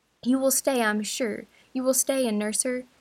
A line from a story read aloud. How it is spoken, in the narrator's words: cried speaking with a glow and yet a gentleness